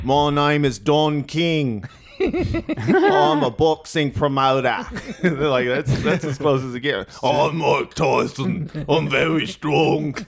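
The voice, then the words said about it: Impression drifting into Cockney accent. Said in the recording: “I just do Crocodile Hunter ... Actually, that became a bit Cockney there.”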